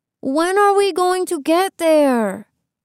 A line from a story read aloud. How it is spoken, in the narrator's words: Iván whined